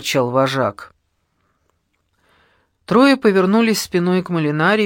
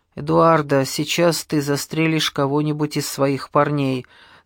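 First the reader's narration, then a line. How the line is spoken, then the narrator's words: Weary. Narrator (Russian): сказал устало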